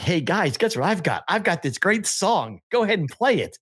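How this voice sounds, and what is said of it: Put-on Philadelphia accent. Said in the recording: “What is that voice? ... It's my Philly.”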